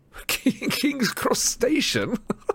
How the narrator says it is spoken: Dumbledore chuckled immodestly

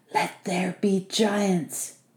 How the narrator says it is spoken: Vasili breathed

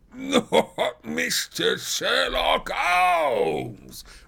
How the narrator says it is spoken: roared the prize fighter

